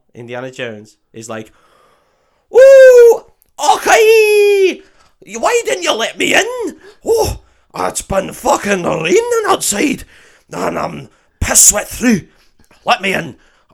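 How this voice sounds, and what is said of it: Put-on Scottish accent. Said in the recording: “I did a Scottish accent better than he did there”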